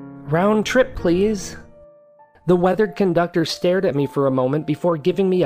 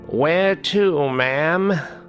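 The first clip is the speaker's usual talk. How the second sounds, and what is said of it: Cracked old man voice. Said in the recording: “speaking in a cracked old man voice”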